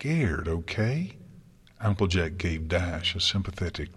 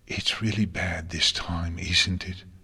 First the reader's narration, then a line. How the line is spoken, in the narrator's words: Spike whispered